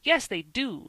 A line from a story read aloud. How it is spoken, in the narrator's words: snapped out Van